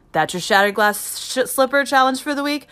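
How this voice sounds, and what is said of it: Stuttering over a phrase. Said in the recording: “keep stuttering when I say that”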